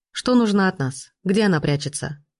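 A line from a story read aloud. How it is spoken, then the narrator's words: Dry question. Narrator (Russian): Сухо переспросил Пирожков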